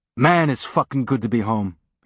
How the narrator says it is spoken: he said

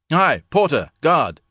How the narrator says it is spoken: he bellowed

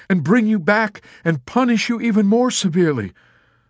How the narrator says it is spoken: Major Danby argued desperately

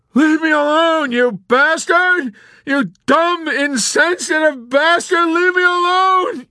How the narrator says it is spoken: Yossarian sobbed

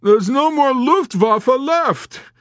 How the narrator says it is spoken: he wailed

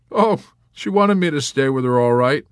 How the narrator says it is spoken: Arfi chuckled

